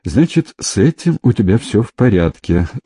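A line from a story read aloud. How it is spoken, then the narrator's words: Laughing question. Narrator (Russian): сквозь смех осведомилась она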